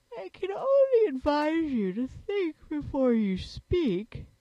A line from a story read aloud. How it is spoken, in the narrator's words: said the Sand Fairy sleepily